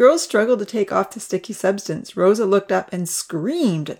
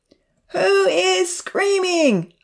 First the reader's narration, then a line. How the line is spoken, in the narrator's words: hollered back